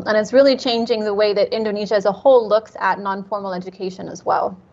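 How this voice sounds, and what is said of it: American accent. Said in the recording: “I'm making presumptions based on your accent. Are you from the United States ... Yes, I'm from California.”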